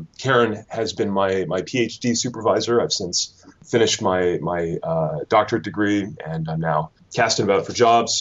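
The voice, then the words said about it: Canadian accent. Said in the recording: “you can probably tell from my accent that I'm not a Kentish native. I'm actually from Canada”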